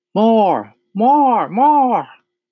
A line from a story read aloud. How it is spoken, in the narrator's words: the animal shouted